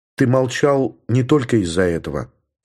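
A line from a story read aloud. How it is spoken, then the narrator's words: Calm. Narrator (Russian): спокойно сказала Елена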